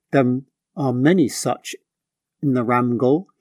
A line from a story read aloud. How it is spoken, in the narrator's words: said